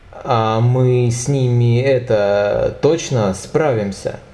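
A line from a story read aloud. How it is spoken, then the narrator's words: Uncertain voice. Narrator (Russian): неуверенным голосом поинтересовался Игорь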